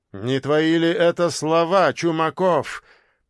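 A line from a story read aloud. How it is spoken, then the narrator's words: Almost growled. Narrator (Russian): почти прорычал Горецкий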